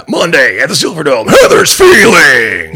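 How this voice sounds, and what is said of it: Monster truck announcer voice. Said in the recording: “Heather's feelings in a monster truck announcer voice”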